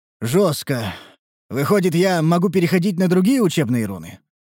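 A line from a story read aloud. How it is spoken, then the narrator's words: Sighing. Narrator (Russian): Вздохнул я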